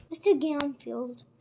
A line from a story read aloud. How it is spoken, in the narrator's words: said Mr